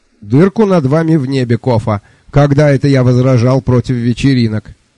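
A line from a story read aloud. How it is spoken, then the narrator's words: Cheerful reply. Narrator (Russian): Бодро отозвался сэр Джуфин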